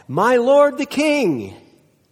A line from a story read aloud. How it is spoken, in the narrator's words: David … he called out